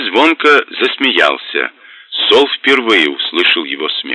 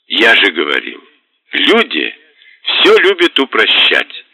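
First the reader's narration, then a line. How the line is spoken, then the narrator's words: Laughing demon. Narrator (Russian): сквозь смех проговорил демон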